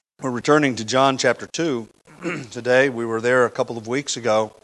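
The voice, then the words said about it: Hoarse, congested voice. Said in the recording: “I'm feel like I got my head in a bucket... I'm a little hoarse up here to preach today... I can barely talk”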